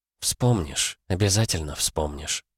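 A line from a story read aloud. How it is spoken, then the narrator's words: Whispering. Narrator (Russian): шептала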